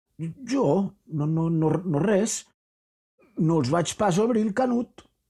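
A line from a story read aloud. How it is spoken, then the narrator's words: Stammering servant. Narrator (Catalan): balbucejava el mosso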